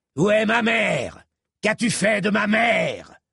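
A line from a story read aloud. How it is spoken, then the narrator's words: Bellowing. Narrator (French): vociférait le seigneur de Verre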